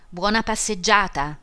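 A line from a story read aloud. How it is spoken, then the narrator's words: Shouted. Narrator (Italian): gridò Homais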